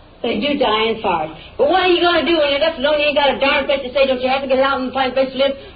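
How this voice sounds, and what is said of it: Yelling, angry raised voice. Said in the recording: “I don't see any reason why you're yelling at me. ... I don't see why you're yelling at me.”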